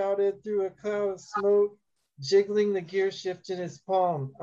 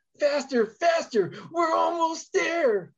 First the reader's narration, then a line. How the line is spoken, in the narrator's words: Jesus screeched